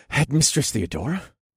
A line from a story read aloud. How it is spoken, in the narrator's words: I gasped